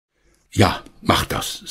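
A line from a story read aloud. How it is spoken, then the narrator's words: Plain. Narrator (German): sagte Herr Schmidt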